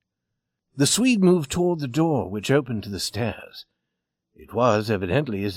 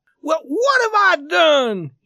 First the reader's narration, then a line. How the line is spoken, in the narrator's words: He screamed at his father